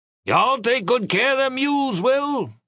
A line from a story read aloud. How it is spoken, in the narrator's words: Grandpa Tweedy hollered after us